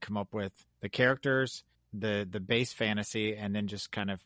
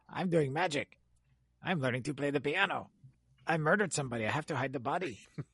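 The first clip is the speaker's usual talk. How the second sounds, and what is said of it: Bad impression of a TV character. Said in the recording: “worst Tattoo impersonation I have ever heard in my life ... sounded like the janitor from the early Adam Sandler albums”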